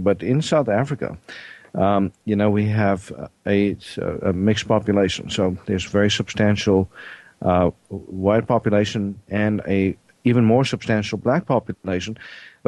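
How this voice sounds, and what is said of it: South African accent. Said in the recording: “I'm originally from South Africa. ... this strange accent ... I'm not quite from this part of the world.”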